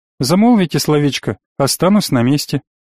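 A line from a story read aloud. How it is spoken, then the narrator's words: Completely calm. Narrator (Russian): абсолютно спокойно ответил Абу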